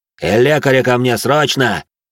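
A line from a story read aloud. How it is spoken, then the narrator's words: Barking. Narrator (Russian): рявкнул он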